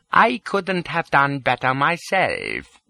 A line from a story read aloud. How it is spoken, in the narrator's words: says he